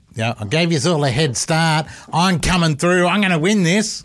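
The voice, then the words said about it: Imitates another person's voice. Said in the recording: “sounds suspiciously like John Howard... That was a really good impression.”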